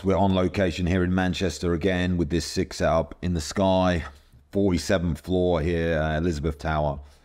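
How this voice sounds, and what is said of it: Worn-out, deep, monotonous voice. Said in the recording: “My voice is a bit of a mess because I've done a load of podcasts, and I commentated last night as well... I've got beautiful, monotonous, deep, long tones”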